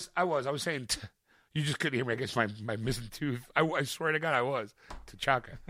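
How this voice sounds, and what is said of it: Usual voice. Nothing is said of it.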